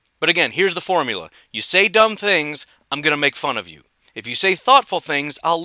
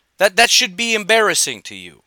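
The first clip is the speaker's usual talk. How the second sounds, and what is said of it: Slips into an Italian-American accent. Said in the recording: “sounded Italian right there, but apparently Tony Soprano's kind of coming out here”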